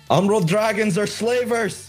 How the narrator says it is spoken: Akron yells out

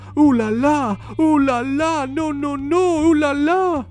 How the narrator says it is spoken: cried Madame Pinson

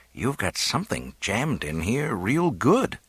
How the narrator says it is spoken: he murmured

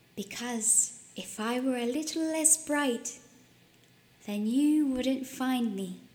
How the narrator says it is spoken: Atlas says calmly

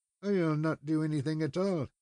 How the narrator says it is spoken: muttered

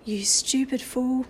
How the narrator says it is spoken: said to Patrick in a low voice

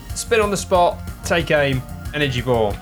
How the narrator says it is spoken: Phoenix shouts

